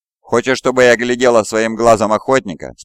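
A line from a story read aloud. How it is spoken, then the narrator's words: Plain question. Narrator (Russian): спросила пилот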